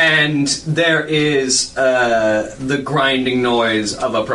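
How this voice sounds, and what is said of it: Usual voice. Nothing is said of it.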